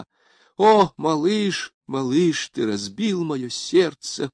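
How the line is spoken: Moaning. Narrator (Russian): простонала она

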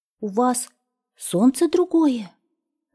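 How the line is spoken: Breathless exhale. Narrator (Russian): выдохнул ёжик

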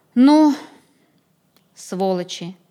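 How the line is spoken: Forced out words. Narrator (Russian): Не найдя ничего другого, выдавил из себя Сотников

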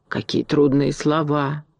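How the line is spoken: Reverent whisper. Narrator (Russian): с великим уважением прошептала ворона

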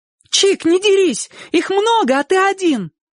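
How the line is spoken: Fearless shout. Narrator (Russian): бесстрашно крикнула Сонька

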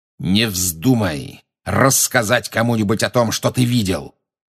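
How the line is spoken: Growled. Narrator (Russian): прорычал Снег

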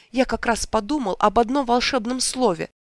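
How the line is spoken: Exclamation. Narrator (Russian): Он воскликнул

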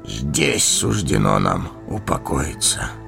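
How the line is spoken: Hollow, muffled voice. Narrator (Russian): глухо проговорил Денетор

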